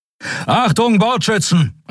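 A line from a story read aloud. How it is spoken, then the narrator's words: Called out. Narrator (German): rief er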